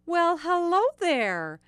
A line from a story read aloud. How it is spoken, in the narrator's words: Margaret loved the echo in the long, low room, and she called out